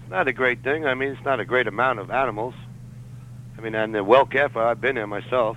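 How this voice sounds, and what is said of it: New York accent. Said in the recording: “You haven't lost your New York accent yet.”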